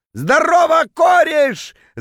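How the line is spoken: Drunken yelling. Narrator (Russian): заорал он дурным пьяным голосом

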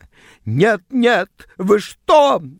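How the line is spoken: Shriek. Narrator (Russian): взвизгнула она

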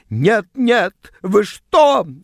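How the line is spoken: Shrill squeal. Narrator (Russian): взвизгнула она

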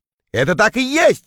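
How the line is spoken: Shout. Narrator (Russian): крикнул я

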